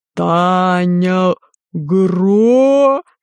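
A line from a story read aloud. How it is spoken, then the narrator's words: Roar of fifty throats. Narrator (Russian): Проревели все 50 глоток Бриарея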